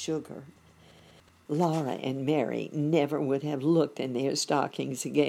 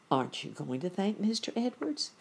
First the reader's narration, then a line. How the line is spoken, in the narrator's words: Ma said gently